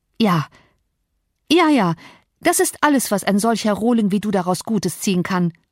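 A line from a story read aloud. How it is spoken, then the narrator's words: Calling out. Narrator (German): rief sie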